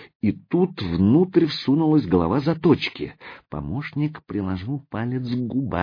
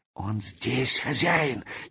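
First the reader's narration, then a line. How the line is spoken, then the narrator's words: Barely audible whisper. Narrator (Russian): едва слышно шепнул порученец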